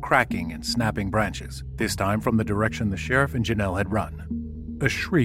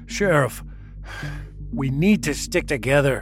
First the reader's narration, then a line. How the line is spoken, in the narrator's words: John gasped as he struggled to catch his breath